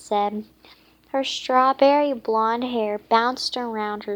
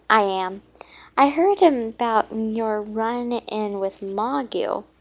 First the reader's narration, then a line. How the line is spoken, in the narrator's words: Princess Lolly said